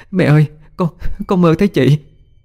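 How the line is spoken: Sobbing. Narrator (Vietnamese): khóc lên nức nở

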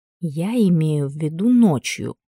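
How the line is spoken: Whispered. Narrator (Russian): прошептала, встав к мужчине поближе

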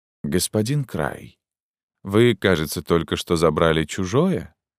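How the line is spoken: Deadly calm question. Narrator (Russian): спросил Атон убийственно спокойно

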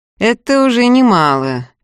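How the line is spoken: Sarcastic. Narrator (Russian): язвительно сообщил Михаил в темноту

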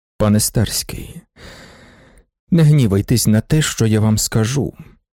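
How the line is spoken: Hollow, muffled voice. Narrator (Ukrainian): промовив він глухим голосом

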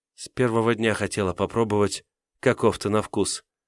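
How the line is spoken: Shy girl's whisper. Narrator (Russian): прошептала девушка и смущенно улыбнулась

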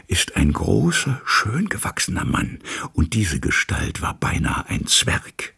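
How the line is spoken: Lapsing into whisper. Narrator (German): verfiel ins Flüstern

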